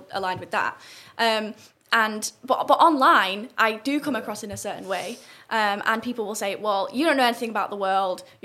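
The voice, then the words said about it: Northern English accent, slightly softened. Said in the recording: “a broad northern accent ... I have an accent that I acquired from Cambridge, which is a little bit southern. And it softens the northern.”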